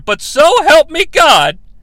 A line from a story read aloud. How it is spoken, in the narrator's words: the king yells